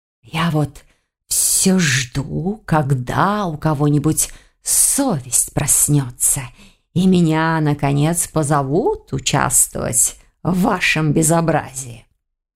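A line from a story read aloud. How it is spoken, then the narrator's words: Displeased hiss. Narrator (Russian): недовольно прошипел он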